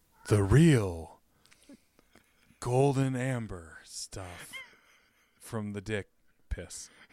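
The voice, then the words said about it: Invented urine character voice. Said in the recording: “your impersonation of the character that I invented that is the urine character ... Pretty good”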